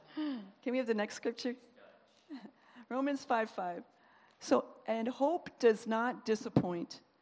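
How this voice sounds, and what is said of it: Dutch-accented English. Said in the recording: “That's my Dutch accent,”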